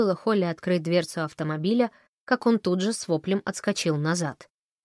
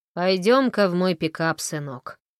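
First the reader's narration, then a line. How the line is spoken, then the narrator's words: Chuckling. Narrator (Russian): хмыкнул Фрэнк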